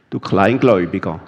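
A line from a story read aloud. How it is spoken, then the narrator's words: Plain. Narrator (German): sagte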